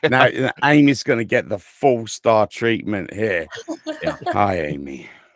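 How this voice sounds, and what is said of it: Speaks with a noticeable accent. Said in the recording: “I'm in love with your accent”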